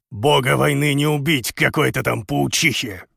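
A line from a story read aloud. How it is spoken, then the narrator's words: Grumbling. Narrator (Russian): Лис пробурчала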